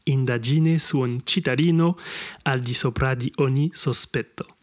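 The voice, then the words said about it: Italian with a poor accent. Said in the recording (French): “les italophones qui écoutent euh, ce podcast vont dire putain, quel accent de merde.”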